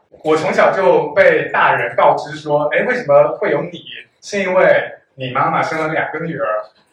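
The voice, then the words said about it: Slight Fujian accent. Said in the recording (Chinese): “口音有一点点福建口音”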